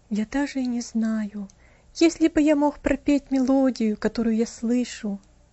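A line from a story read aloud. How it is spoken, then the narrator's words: Sad reply. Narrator (Russian): грустно ответил он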